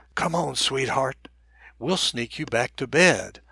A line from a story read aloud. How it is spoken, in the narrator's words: I whispered